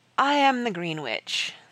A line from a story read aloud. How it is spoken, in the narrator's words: the voice said wearily